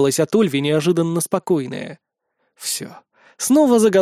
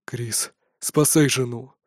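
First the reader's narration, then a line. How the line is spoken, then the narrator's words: Strained. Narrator (Russian): выдавил Деодор с усилием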